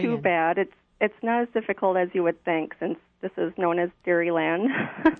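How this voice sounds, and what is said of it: Noticeable regional accent. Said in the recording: “I thought I heard some kind of accent going on there.”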